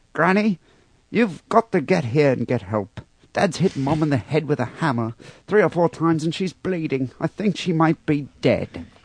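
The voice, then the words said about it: Poor imitation Australian accent. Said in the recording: “That was a pretty bad Australian accent.”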